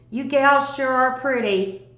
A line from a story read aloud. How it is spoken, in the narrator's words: One tall country-looking boy yelled